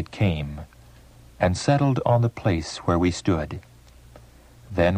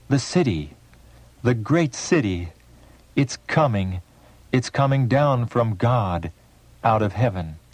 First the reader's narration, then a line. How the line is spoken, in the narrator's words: We all cried out